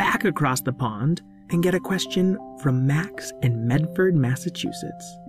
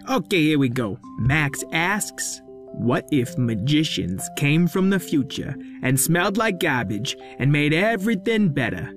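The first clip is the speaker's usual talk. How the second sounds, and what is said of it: Cartoon character with Massachusetts accent. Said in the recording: “you kind of have a Massachusetts accent ... it's more the way you say your R's ... All your city characters have the same accent anyway”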